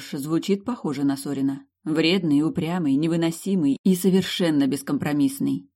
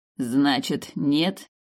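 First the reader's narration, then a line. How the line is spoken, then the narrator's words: King snorting. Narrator (Russian): хмыкнул король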